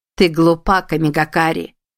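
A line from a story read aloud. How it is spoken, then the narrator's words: Cold. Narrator (Russian): холодно сказала Изанами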